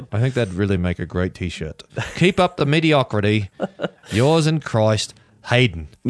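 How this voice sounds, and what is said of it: Bad put-on Australian accent. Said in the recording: “that Australian accent in the flesh, it really is terrible. It's awful.”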